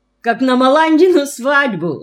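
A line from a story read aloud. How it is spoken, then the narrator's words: Laughing. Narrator (Russian): засмеялся Мальшет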